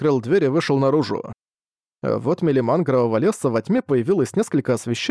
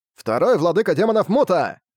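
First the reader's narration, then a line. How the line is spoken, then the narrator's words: Young man shouting. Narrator (Russian): закричал парень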